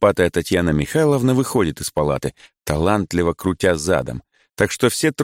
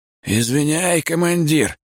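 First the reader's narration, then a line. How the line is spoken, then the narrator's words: Hoarse reply. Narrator (Russian): хрипит тот в ответ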